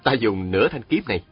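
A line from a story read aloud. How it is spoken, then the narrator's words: Smiling. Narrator (Vietnamese): Chàng mỉm cười nói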